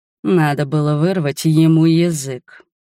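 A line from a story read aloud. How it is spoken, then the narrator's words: Through gritted teeth. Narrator (Russian): процедил король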